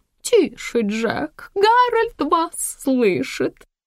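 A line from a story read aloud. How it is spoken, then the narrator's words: Giggling. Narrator (Russian): хихикнув, сказала Ивона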